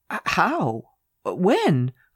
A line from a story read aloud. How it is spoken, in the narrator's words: I gasped